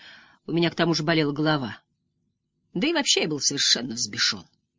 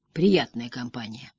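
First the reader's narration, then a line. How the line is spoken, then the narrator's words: Muttered. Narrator (Russian): пробормотал я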